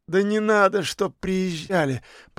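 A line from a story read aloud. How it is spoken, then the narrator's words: Moan. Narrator (Russian): простонал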